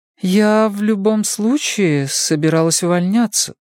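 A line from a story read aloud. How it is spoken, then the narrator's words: Hesitant, unsure. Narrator (Russian): неуверенно произнесла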